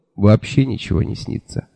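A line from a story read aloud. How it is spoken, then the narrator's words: Gloomy grumble. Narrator (Russian): мрачно буркнул я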